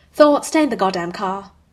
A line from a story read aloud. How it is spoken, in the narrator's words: Steve snaps